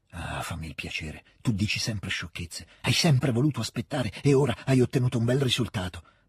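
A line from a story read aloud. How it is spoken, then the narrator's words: Irritated, cutting undertone. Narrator (Italian): disse sottovoce il principe Andrei, irritato e con l'evidente desiderio di pungere la sorella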